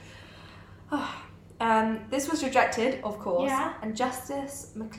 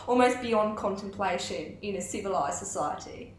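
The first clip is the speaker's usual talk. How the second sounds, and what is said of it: Put-on Australian accent. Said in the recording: “I don't want to do an Australian accent, but it's not going to be good ... That's not even that bad ... At least in my ears, it's pretty good ... That's actually Kiwi accent”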